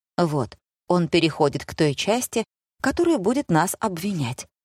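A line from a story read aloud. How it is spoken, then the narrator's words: Whisper. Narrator (Russian): шепнула мама отцу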